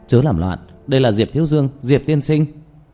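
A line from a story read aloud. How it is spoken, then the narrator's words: Hurried shouting. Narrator (Vietnamese): Giọng nói của Lý Vĩ vang lên, gã vội vàng la hét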